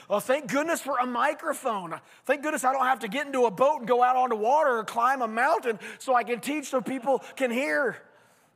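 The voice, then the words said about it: Hoarse, nearly lost voice. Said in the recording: “you can hear my voice. I had a sinus infection this week. My voice is almost out already.”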